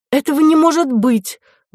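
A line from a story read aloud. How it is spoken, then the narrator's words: Exclaimed. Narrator (Russian): воскликнула вторая прачка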